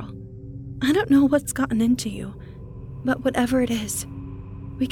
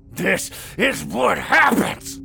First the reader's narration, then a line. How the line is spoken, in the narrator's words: Carl growled and coughed